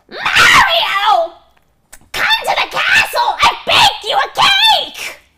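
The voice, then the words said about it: Squeaky Toad-like princess character voice. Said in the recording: “she's developed somewhat of an inflection, a Toad-esque inflection ... This is going to be unbearable. This is going to be terrible ... Toad impressions”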